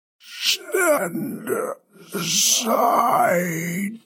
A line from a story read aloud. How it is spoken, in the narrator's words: Gory wheezed